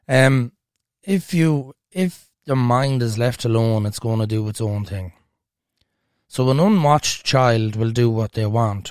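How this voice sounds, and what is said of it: Voice strained by sore throat. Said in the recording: “my throat is still not better. So if my voice isn't great, that's down to a viral infection.”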